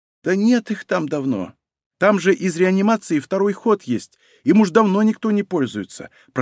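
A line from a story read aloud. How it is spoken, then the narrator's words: Whispered. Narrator (Russian): прошептала она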